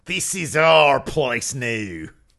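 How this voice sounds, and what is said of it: Poor angry Australian accent, Peyton Royce. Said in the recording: “angriest Australian accent I've ever heard in my life ... That's so not Australian ... That was all over the place. I couldn't even do it”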